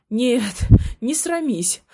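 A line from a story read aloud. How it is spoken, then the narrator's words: Hoarse wheeze. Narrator (Russian): хрипел он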